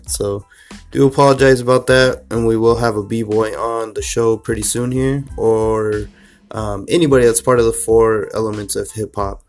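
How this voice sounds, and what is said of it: Slightly sick-sounding voice. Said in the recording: “I got the flu, so you could hear it in my voice a little bit.”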